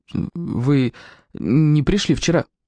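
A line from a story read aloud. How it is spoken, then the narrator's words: Timid, forced-out words. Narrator (Russian): осмелился выдавить из себя Гус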